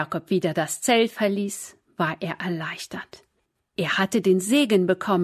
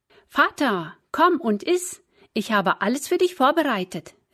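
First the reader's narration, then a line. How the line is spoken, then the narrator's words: Calling out. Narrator (German): rief Esau ihm zu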